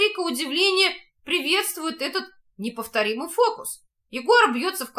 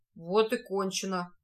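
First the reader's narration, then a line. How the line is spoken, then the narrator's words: Athlete's childlike joy. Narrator (Russian): говорит атлет, с детской радостью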